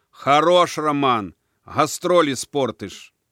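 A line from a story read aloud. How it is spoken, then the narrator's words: Shout. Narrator (Russian): Но все-таки крикнул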